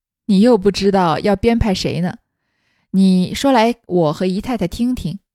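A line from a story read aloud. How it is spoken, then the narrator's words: Smiling through tears. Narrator (Chinese): 贾母拭了拭眼泪，微笑道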